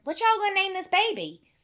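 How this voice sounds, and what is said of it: Thick Kentucky accent. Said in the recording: “in her thick Kentucky accent”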